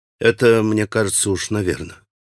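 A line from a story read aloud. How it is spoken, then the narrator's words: Sad reply. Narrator (Russian): грустно ответил Алеша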